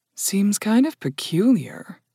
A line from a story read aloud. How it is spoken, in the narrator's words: Dunyasha murmured